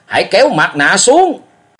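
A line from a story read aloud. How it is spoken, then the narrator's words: Roared loudly. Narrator (Vietnamese): đồng thời gầm lớn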